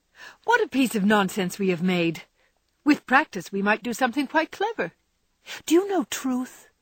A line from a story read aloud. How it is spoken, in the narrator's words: asked Sally, after they had laughed over their story